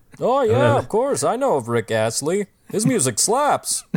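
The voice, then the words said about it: Boring white office guy voice. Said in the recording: “that white guy impression is getting very close to an Obama impression”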